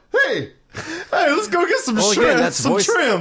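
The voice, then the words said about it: Shrek character voice impression. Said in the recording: “That's ... impersonation. ... he's very good ... That was very good.”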